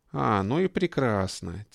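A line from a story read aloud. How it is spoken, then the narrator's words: Quiet, breathless. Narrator (Russian): тихо приговаривал Георгий, задыхаясь от бега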